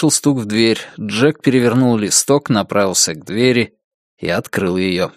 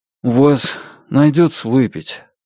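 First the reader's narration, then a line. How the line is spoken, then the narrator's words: Tired mumble. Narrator (Russian): устало пробормотал Брезач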